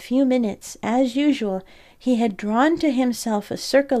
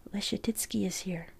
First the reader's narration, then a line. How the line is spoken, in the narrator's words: people whispered